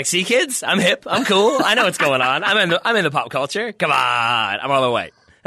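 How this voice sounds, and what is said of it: Mock stereotypical white-guy voice. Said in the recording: “my other white impression. I think it's pretty good.”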